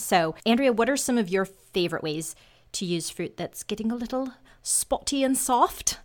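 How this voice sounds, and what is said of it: Put-on English accent. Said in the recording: “how's my English accent coming along?”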